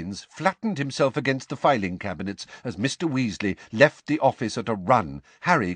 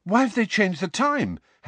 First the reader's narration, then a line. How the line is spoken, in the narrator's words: Harry said breathlessly